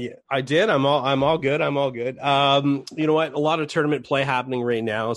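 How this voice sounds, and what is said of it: Hoarse voice. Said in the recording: “If I can get my voice back here ... I'm a little hoarse today.”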